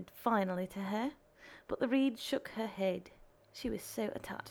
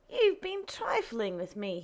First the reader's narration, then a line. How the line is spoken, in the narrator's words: he cried